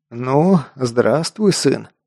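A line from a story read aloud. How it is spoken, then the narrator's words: Tired, smiling. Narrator (Russian): устало улыбнулся Аргис Нолти, маг тени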